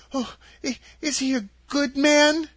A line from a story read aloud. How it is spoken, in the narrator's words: inquired the girl anxiously